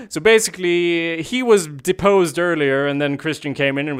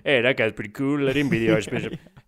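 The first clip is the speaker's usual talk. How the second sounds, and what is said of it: Put-on Danish accent. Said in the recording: “in his Danish accent, as you heard”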